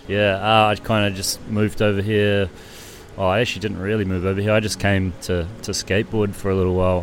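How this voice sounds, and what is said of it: New Zealand accent. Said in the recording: “that doesn't sound like a Marrickville accent ... I'm from Wellington, New Zealand”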